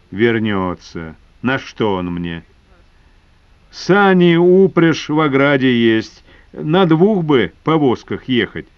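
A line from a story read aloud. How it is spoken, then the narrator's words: Plain. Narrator (Russian): сказал Шишка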